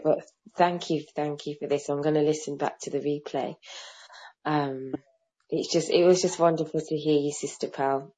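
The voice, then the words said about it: Voice strained by sore throat. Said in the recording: “I've got a bit of a sore throat.”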